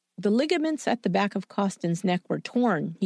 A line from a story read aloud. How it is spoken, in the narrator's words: he said